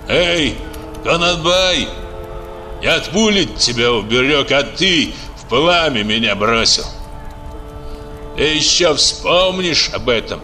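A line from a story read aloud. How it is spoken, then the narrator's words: Furious shout. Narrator (Russian): Божей с бешенством крикнул в спину отъезжавшему Кунанбаю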